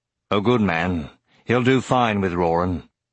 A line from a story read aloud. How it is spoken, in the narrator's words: Horst rumbled